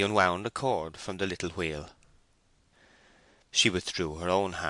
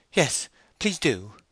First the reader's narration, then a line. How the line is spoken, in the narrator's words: she exclaimed helplessly